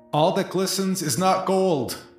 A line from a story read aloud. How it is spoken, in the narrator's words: yell quickly